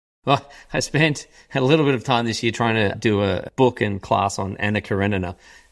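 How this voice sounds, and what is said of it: Australian accent, Melbourne. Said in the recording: “with your accent ... the accent is very well rooted in Melbourne, Australia”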